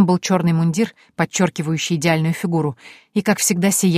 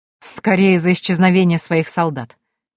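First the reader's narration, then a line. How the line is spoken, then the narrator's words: Wry snort. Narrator (Russian): хмыкнул герцог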